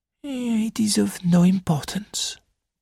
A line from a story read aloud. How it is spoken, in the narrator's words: murmured Poirot